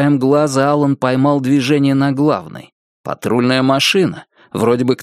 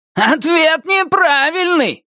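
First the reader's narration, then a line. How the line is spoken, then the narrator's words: Yelling. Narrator (Russian): заорал Туз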